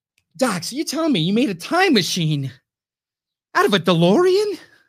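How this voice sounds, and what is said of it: Good Back to the Future character impression. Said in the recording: “That's a pretty good impression”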